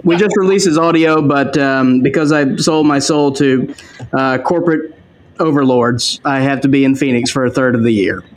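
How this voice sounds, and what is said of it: Slight Southern US twang. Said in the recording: “You have a little southern twang ... I'm originally from Mississippi.”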